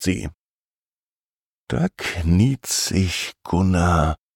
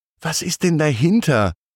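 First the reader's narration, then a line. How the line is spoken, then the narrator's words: Excited question. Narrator (German): fragt Gunnar, der ganz aufgeregt ist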